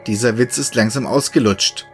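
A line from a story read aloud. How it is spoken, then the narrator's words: Cold. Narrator (German): sagte Kevin kalt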